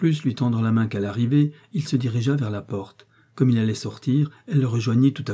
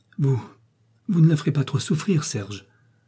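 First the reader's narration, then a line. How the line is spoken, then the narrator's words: Pleading tone. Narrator (French): dit-elle d'un ton de supplication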